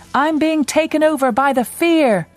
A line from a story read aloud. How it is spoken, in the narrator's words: so I shouted